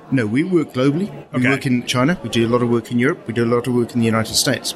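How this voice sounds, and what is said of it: Southern African accent. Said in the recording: “I can hear from your voice you are not a Native American ... I'd like to say I have a Southern accent. It's actually Southern African.”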